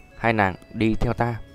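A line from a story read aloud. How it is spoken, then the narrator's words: Soft-spoken. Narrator (Vietnamese): Tiêu Viêm nói khẽ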